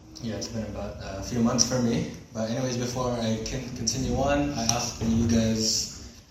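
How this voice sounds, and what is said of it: Sick, strained voice. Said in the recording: “excuse my voice or my throat. I've been sick for the past 3 days ... I'm actually worse off”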